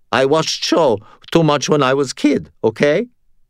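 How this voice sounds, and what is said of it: Strained teenage voice, Russian accent. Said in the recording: “in a strained teenager tone. She had a Russian accent that sounded exactly like Sonya.”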